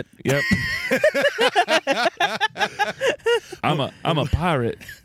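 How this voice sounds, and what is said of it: Johnny Depp / Jack Sparrow impression. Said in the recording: “That's halfway between real Johnny Depp and Jack Sparrow.”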